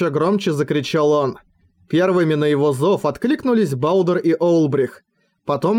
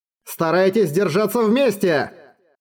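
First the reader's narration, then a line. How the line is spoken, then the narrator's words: Shout. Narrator (Russian): крикнул односельчанам Роран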